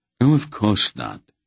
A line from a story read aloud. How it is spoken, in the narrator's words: King Rodar said blandly